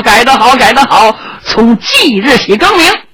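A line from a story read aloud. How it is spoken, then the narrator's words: Smiling approval. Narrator (Chinese): 英王傅宝臣一笑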